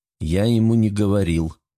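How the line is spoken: Calm remark. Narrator (Russian): спокойно заметил Лиам

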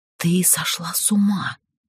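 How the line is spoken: Barely audible whisper. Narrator (Russian): едва шевеля губами прошептала я

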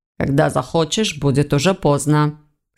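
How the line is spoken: Stern curt retort. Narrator (Russian): строго отрезал Войтых

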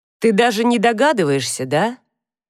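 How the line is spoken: Sad voice. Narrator (Russian): Голос его звучал печально

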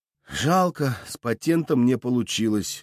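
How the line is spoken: Sigh. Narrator (Russian): вздохнул

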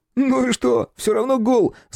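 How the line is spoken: Laughing. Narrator (Russian): засмеялся Ромка

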